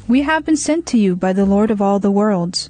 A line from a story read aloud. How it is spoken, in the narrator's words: said in a clear voice